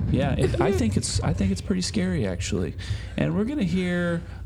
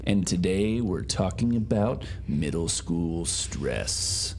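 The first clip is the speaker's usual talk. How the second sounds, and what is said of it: Spooky scary voice. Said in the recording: “I use the scary voice for that because stress is scary.”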